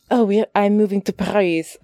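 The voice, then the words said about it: Put-on French accent. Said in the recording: “I know I'm doing a French accent.”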